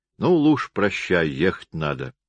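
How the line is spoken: Tender farewell. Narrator (Russian): обратился он к жене, ласково обнимая ее

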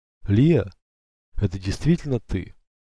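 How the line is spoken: Breathless disbelief. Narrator (Russian): выдохнул он, и не веря своим ушам

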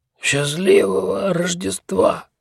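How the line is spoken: Hoarse croak. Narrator (Russian): прохрипел

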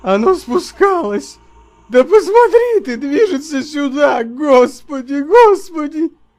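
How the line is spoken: Shrill frightened shriek. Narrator (Russian): вскрикнул, словно взвизгнул

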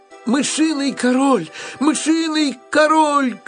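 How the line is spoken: Terrified scream. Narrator (Russian): крикнула Мари и в ужасе

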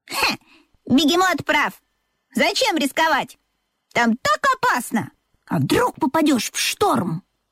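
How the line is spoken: Exclamation. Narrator (Russian): воскликнула Чита

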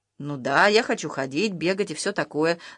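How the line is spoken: Calm confirmation. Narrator (Russian): спокойно подтвердил Юра

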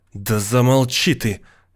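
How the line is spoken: Angrily cutting off. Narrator (Russian): сердито оборвала Эм

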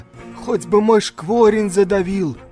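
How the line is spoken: Pleading. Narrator (Russian): взмолился он

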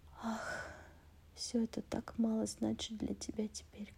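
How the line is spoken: Quiet. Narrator (Russian): говорила она тихо

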